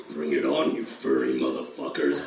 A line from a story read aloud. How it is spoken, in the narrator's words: he said in his badass raspy voice